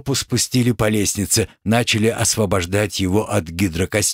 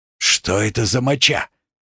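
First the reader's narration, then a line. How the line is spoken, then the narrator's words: Hoarse question. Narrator (Russian): сипло поинтересовался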